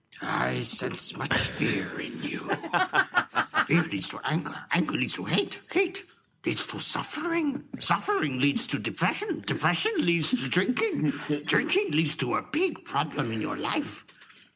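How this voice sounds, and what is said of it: Yoda impression. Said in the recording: “Yoda ... very good impression ... It's bang on.”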